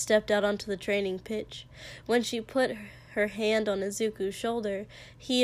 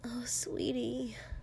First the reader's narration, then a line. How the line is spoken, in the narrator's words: She muttered